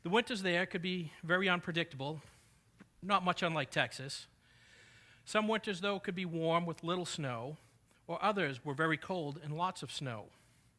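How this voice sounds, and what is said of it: New England accent. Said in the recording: “from my accent, I did not grow up in Texas, but I grew up in New England”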